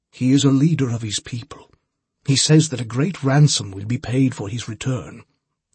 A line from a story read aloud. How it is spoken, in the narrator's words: the priest said